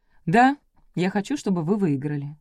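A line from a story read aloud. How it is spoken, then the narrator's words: Calm reply. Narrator (Russian): спокойно ответил Березкин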